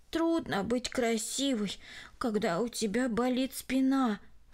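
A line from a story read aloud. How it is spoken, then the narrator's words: Sigh. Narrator (Russian): вздохнула она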